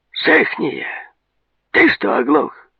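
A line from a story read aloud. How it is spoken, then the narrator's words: Stern call, hidden warmth. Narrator (Russian): Грозно окликал он мальца, но как ни старался, не смог скрыть теплые нотки в голосе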